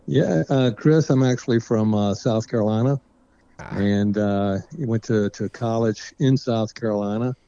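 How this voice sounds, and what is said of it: Southern American accent. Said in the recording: “I detect a bit of a Southern accent, maybe.”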